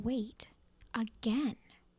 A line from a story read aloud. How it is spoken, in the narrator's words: his heart whispered